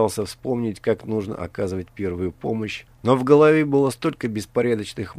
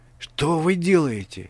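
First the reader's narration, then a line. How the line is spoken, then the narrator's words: Angry hiss. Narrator (Russian): сердито прошипела Агата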